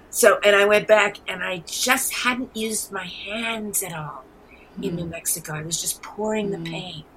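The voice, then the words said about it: New York accent. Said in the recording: “I'm born and raised in New York City. Maybe you can hear it in my accent. ... You did hear it.”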